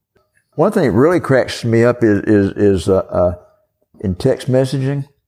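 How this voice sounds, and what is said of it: Southern American accent. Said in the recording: “it doesn't understand my southern accent”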